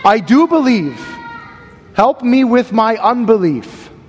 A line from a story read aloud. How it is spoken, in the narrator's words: The child's father immediately cried out and said with tears